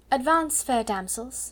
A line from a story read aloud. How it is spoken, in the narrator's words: she said in her happy dream voice